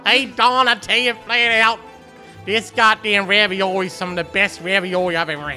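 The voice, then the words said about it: Put-on Italian or Baltimore accent. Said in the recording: “Are we doing Italian accents or Baltimore accents?”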